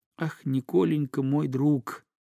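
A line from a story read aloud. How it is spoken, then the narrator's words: Tender, near tears. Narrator (Russian): заговорил Дмитрий так ласково, что слезы, казалось, стояли в его блестящих глазах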